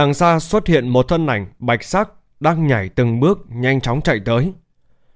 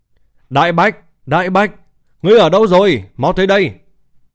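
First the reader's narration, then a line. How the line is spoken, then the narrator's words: Loud shout. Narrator (Vietnamese): Bạch Hiểu Thuần hét lớn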